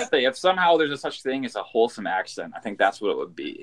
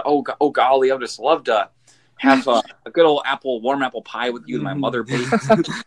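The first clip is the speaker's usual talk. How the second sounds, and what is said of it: Wholesome Fargo-style accent. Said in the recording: “It's a very wholesome accent ... a Fargo accent”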